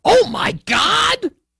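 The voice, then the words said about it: Joey Styles wrestling commentator impression. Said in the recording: “let me do my best Joey Styles ECW impersonation.”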